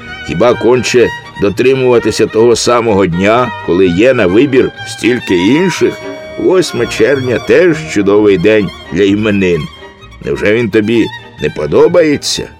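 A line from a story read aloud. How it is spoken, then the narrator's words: Child laughing. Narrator (Ukrainian): Малий засміявся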